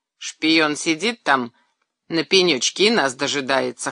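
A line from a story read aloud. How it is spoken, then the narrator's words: Wry snort. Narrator (Russian): хмыкнул Ильин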